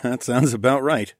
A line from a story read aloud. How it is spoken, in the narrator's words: I chuckled